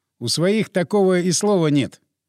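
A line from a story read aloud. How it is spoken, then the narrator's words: Laughing. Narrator (Russian): я засмеялся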